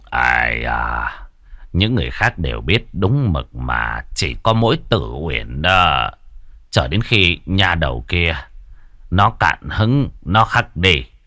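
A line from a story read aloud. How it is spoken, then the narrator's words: Quiet voice. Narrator (Vietnamese): Trương Bôn nhỏ giọng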